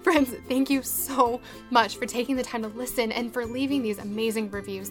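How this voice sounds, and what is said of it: Teary, emotional voice. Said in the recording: “I'm totally crying ... all teary”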